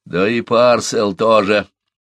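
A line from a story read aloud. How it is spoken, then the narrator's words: Creaky voice. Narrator (Russian): добавил Смэдж скрипучим голосом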